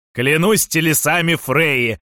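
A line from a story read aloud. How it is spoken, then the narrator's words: Yelling. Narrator (Russian): завопил Фафхард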